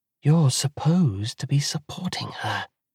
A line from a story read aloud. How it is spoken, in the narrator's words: whispers Callidice